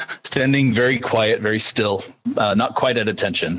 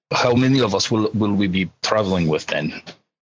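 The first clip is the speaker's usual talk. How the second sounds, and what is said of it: Put-on Slavic accent. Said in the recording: “in kind of a what would be a for us a kind of a Slavic accent.”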